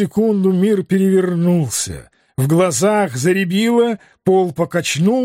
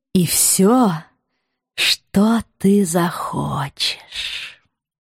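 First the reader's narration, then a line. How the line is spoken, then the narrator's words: Languid drawl. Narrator (Russian): Томно протянула она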